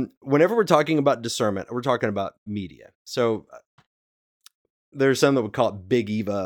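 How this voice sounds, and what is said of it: Usual voice. Nothing is said of it.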